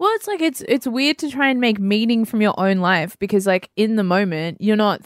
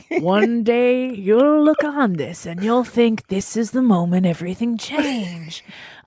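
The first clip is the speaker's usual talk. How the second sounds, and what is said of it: Weak Morgan Freeman narrator impression. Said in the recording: “I'm doing the Morgan Freeman narration in my own head. ... It's not a great impression.”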